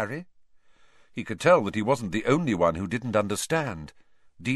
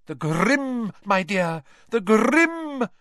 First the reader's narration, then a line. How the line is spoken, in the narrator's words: cried Professor Trelawney, who looked shocked that Harry hadn't understood